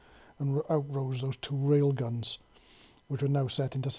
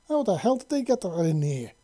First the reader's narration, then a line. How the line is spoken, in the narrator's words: Lisa exclaimed into her comms door, crackling through to the interference